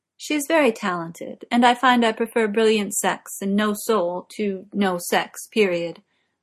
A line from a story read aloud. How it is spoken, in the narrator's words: Morgana says, keeping her voice as bland as possible